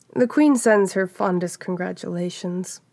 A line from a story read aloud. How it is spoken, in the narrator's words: Cassara said kindly enough